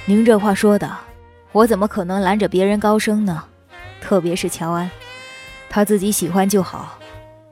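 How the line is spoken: Hearty laughter. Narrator (Chinese): 陆先生大笑起来

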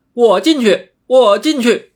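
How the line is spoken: Loud shout. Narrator (Chinese): 石猴，应声高叫道

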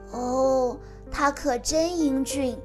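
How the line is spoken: Admiring. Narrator (Chinese): 艾丽儿不由得赞叹道

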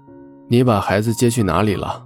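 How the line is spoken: Icy cold voice. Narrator (Chinese): 周伯言声音冷得像冰

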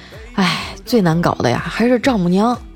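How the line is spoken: Sighing. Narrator (Chinese): 调调叹了口气说

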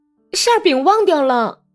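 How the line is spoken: Angry shout. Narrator (Chinese): 格里高利气愤地对他喊道

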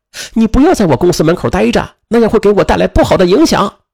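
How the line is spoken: Angry shout. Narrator (Chinese): 王芳气得就喊

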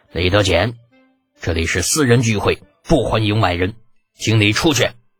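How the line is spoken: Scornful huff. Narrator (Chinese): 那崔干哼了一声

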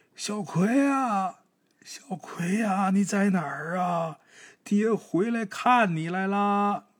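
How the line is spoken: Calling out repeatedly. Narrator (Chinese): 老黑他媳妇儿呢，还在那儿一直喊

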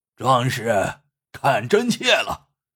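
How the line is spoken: Roaring. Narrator (Chinese): 红脸天王朝他吼道

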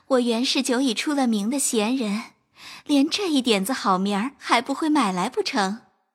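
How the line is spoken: Placating, soothing. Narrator (Chinese): 宝玉忙陪笑抚慰

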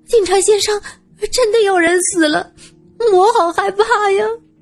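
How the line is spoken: Tearful, frightened voice. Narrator (Chinese): 一个带着哭腔的声音

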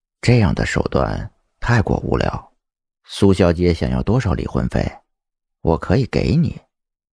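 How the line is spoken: Low voice. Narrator (Chinese): 蒋泽旭低声说道

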